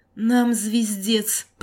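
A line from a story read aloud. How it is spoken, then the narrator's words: Groaning. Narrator (Russian): простонал Игорь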